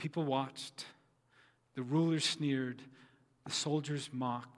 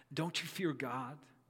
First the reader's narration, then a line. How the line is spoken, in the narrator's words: he said